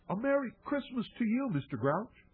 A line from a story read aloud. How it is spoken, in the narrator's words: I called out as cheerily as I could